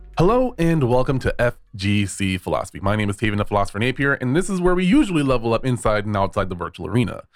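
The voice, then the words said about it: Congested, stuffy-nosed, slightly off voice. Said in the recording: “I'm a little under the weather ... my voice sounds a little bit off. My nose is stuffed. I've been sleepy and tired ... sound a little bit off”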